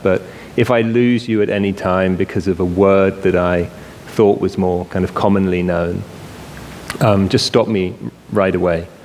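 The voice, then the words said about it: British English accent. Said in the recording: “maybe you can already tell I have a British accent”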